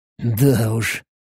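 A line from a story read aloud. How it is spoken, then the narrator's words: Muttered aloud. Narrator (Russian): пробормотал я вслух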